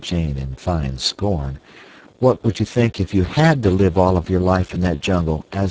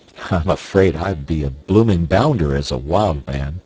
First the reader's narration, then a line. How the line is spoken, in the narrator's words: laughed Clayton ruefully